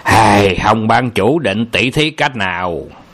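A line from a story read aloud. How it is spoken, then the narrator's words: Harsh, clipped question. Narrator (Vietnamese): Âu Dương Phong gằn giọng hỏi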